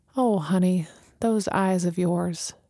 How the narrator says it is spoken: she murmured

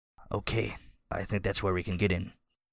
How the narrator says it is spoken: McEnroe is whispering, but he says

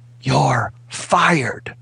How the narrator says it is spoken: She just whispered

